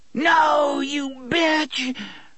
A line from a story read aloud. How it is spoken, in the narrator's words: Detta screamed